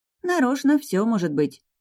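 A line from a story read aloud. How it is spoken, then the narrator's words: Small dragon sighing. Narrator (Russian): вздохнул дракончик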